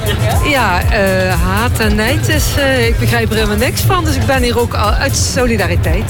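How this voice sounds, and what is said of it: Slight Limburg Dutch accent. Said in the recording (Dutch): “Ik hoor het een beetje, dit Limburgs accent.”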